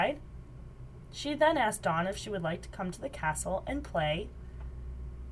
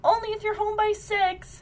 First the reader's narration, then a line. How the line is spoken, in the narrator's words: her mother shouted back